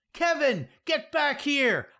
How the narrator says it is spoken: I hear an administrator yell

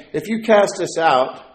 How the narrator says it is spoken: the demons begged him, saying

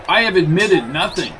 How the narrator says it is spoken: shouted Loftus

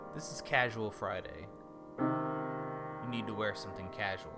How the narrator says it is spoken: the mayor said very calmly, in a very curt tone

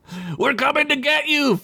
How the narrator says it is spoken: Fed shouted back into the darkness

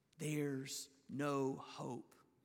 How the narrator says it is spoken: Satan loves to step into a situation like that and whisper

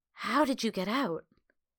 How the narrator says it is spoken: he cautiously whispered

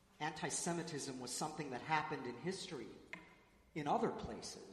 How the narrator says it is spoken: said, her voice breaking

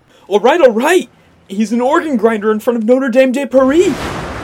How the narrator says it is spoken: Clarence finally blurts out

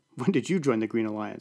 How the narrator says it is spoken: laughed

